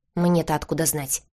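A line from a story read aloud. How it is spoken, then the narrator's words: Young woman's snort. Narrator (Russian): фыркнула девушка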